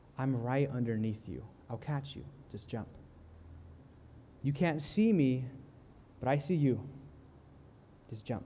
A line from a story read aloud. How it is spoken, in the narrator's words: he says again, calmly and with love